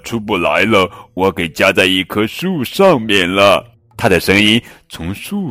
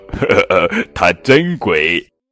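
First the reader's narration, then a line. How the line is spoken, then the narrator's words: Giggling. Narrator (Chinese): 那些象咯咯的笑说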